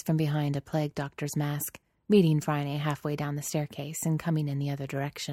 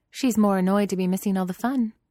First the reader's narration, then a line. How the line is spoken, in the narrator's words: Phryne says brightly